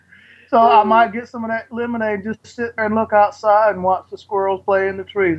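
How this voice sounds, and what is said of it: Put-on Southern accent. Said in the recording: “I noticed you just developed a southern accent.”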